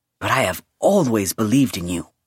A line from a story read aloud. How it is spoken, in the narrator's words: he said firmly